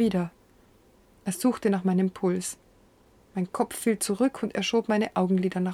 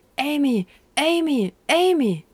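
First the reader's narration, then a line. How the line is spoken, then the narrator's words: Shouting. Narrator (German): Er … schrie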